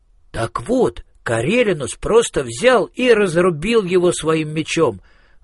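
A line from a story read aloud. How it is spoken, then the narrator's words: Exclaimed. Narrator (Russian): воскликнул Министрель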